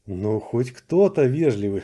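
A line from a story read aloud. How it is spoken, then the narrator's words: Snorting. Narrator (Russian): хмыкнул я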